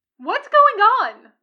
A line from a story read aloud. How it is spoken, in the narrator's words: Tucker yelps